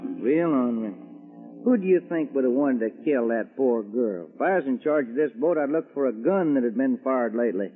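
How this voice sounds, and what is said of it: Texan accent. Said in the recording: “that accent? ... I just talk the way folks talk in Texas. ... That's Texas talk.”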